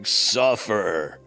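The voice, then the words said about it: Death metal growl. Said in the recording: “in my best death metal voice”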